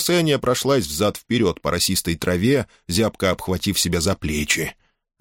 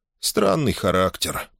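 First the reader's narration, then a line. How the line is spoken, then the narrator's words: Muttered. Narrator (Russian): пробормотал Юрк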